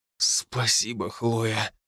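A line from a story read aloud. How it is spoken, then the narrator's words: Breathless disbelief. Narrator (Russian): выдохнул, все еще не веря глазам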